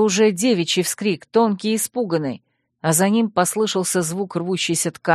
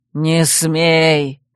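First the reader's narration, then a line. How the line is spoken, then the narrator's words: Roar. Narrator (Russian): взревел следом первый голос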